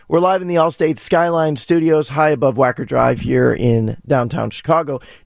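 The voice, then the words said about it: Raspy voice. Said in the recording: “take care of your voice ... Please excuse the raspy voice.”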